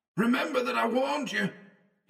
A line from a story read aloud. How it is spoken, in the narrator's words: he shouted back